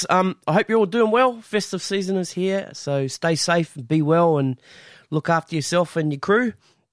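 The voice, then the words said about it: Hoarse, sick-sounding voice. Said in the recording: “Excuse my voice at the minute. I'm feeling a little bit under the weather, bit of a bug thing going on.”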